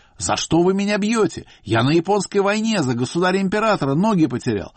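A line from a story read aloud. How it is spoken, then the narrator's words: Shouting. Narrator (Russian): Он им кричал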